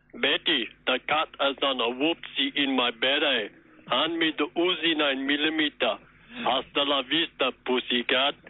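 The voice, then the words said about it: Arnold Schwarzenegger impression. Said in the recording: “do an impersonation of Arnold Schwarzenegger impersonating Frank Spencer”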